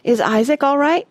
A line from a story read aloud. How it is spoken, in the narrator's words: Rush asked breathlessly